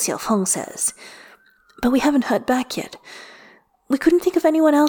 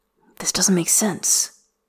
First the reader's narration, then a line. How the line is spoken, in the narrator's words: Lilian Hua says quietly